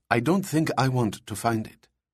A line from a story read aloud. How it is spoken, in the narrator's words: Seaman Katahani whispered to his superior in Farsi